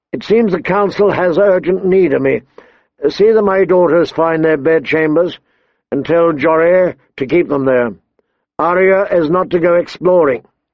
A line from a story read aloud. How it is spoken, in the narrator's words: Ned saw Van Poole, his own steward, and called out